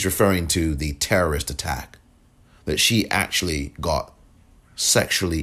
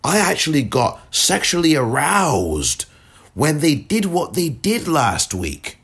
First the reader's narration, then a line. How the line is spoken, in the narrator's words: she shouts out, in part, among other things in this rant, she said